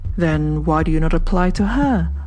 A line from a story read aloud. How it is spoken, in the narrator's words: asked Platon earnestly